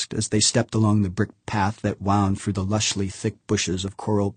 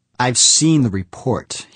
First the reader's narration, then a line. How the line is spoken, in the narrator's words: replied testily